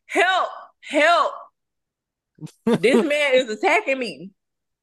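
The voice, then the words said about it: Screaming for help, mock panicked. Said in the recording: “I'm going to scream. Like, I'm screaming like you attacking me. Now I'm Karen.”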